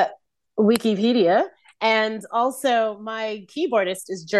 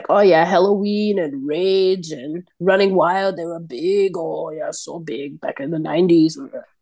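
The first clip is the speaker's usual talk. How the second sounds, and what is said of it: Put-on German accent, Schwarzenegger-like. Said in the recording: “I can't do a German accent. ... It's very Arnold Schwarzenegger, Austrian.”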